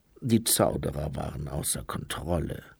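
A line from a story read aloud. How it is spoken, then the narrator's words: Grumbling. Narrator (German): brummte Luce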